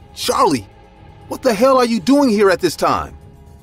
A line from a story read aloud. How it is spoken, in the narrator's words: I cried out loud